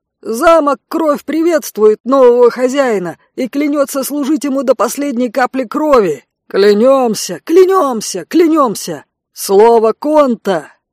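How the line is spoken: Warrior shouting. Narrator (Russian): крикнул кто-то из воинов

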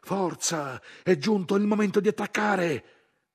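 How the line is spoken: Yelling over engine noise. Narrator (Italian): l'autista della prima macchina carrozzata, lo contraddisse urlando per superare il fracasso del motore

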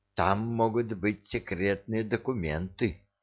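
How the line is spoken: Near whisper. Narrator (Russian): произнесла она почти шепотом

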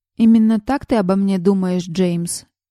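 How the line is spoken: Tired flat voice. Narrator (Russian): произнесенный усталым и бесцветным голосом

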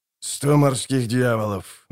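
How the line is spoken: Grumbled. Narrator (Russian): буркнул Краханкрайт

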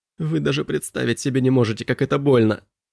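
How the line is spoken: Whimpering. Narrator (Russian): прохныкал Элиас

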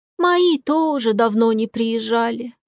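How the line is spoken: Sighing. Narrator (Russian): вздохнула Антонишна

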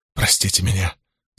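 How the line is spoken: Woman's mumble. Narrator (Russian): забормотала женщина

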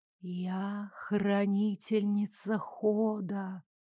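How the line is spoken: Whisper from behind door. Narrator (Russian): продолжил шептать неведомый некто, скрывающийся за огненным прямоугольником пока закрытой двери

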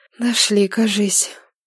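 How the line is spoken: Breathed out. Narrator (Russian): выдохнула Нилата

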